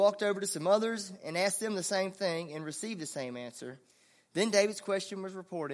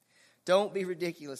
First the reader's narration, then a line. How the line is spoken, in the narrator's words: Saul replied